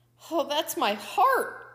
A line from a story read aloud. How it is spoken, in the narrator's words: Coyote screamed